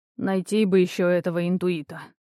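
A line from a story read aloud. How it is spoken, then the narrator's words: Sighing. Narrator (Russian): вздохнул Лиссандр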